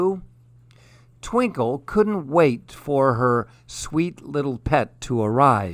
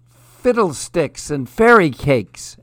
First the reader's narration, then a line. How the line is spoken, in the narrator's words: exclaimed Twinkle